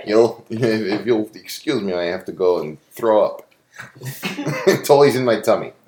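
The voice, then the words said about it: Put-on Russian accent. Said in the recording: “The only one I can do is Russian ... Dixie likes the Russian accent”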